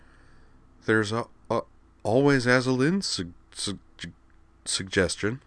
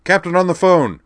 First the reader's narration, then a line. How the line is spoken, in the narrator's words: A military-sounding voice barked in the background